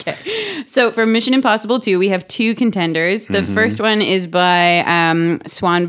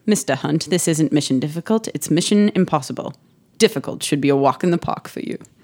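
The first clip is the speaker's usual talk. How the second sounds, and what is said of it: Put-on British accent. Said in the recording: “like Sir Anthony Hopkins saying this line... That was my British accent... It was fantastic.”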